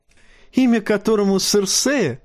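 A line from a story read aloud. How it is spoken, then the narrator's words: Laughing. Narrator (Russian): засмеялся карлик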